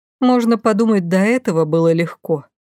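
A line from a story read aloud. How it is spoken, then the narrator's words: Sighing. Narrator (Russian): вздохнула я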